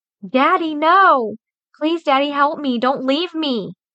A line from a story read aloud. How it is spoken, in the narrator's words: Casey screamed, tears streaming down her face